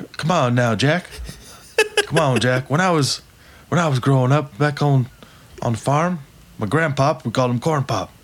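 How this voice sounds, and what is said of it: Confused old grandfatherly voice. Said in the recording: “He's kind of like the whimsical old... grandfather who's clearly very confused”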